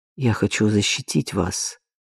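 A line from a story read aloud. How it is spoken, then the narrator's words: Quiet. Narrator (Russian): тихо сказал он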